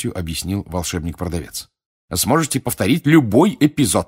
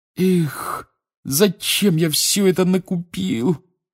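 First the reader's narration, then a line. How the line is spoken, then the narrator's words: Groaning lament. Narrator (Russian): простонал Рон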